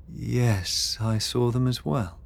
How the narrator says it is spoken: Beatrix murmured

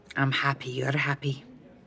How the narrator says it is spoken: Max said in a low voice

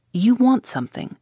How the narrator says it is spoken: she answered sharply and suspiciously

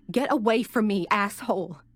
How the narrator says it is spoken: screamed

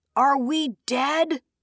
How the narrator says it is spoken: Moraine hollered

